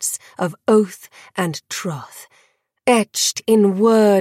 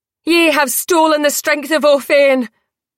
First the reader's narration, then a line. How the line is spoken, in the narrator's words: Phoebe cried